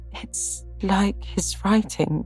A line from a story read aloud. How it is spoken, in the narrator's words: faltered Meg